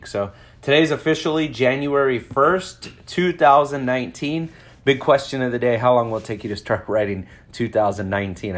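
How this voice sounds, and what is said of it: Voice not fully recovered, sickly. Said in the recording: “my voice isn't 100% yet. I actually got crazy sick.”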